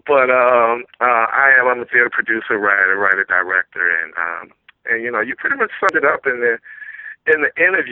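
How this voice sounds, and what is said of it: Louisiana accent. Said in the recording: “I'm originally from Louisiana ... everybody keeps telling me I still have my accent”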